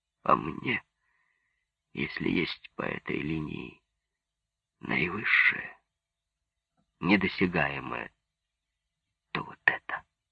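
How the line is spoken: Hoarse hopeless. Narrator (Russian): произнес сипло, безнадежно

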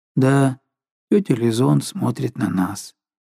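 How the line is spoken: Indifferent absent-minded tone. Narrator (Russian): повторил безразличным тоном, каким говорят, не думая

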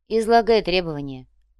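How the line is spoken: Sighed. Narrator (Russian): вздохнул Ваня

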